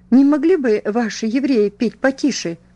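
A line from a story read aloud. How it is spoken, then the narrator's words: Angry exclamation. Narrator (Russian): раздувая ноздри, воскликнула она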